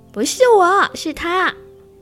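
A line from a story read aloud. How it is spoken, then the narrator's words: Loud yell. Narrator (Chinese): 鸵鸟也大叫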